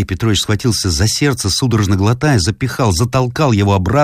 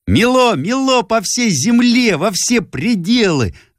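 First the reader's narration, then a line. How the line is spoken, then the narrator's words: Sudden ringing girl's cry. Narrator (Russian): звонко выкрикнула вдруг девочка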